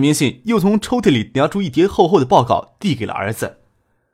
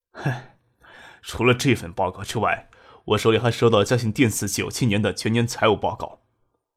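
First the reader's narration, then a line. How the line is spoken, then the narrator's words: Light sigh. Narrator (Chinese): 葛明信轻叹了一口气，说道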